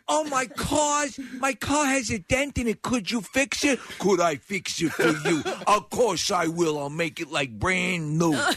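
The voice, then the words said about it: Harsh Long Island accent. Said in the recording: “whenever you see someone on television, Kathy, that what comes from Long Island ... the accent, it's so harsh. It makes them sound a little bit like a moron.”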